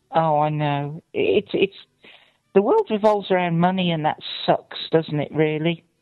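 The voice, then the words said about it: English West Midlands accent. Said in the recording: “I'm from Shropshire. We don't have a British accent. ... Like nearly Dudley in the West Midlands ... Sounds pretty British to us.”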